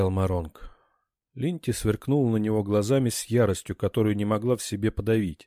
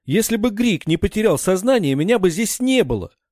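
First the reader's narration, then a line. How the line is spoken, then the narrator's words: Shouting. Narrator (Russian): закричала Альтинка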